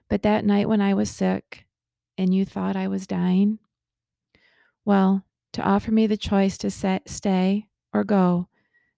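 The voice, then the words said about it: Choked-up, emotional voice. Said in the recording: “I get a little choked up when I think about this chapter in our story”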